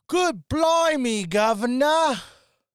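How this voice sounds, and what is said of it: Deliberately bad put-on British accent. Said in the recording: “I'm going to give a genuine impression of her doing a British accent. ... That was pretty close.”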